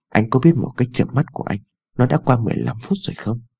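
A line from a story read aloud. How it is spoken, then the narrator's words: Soft sulky complaint. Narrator (Vietnamese): Ái Dương khẽ dỗi hờn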